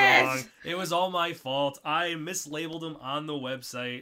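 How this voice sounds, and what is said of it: Usual voice. Nothing is said of it.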